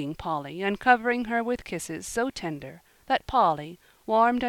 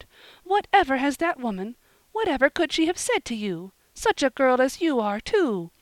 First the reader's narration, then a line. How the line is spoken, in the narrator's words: cried Mrs